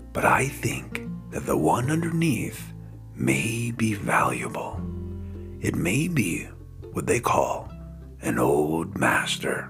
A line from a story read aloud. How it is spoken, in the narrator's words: whispered